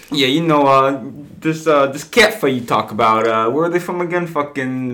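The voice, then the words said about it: Put-on Philadelphia accent. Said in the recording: “my Philly accent”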